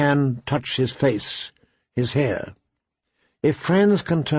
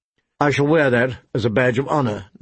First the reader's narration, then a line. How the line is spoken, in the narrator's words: Ned said dryly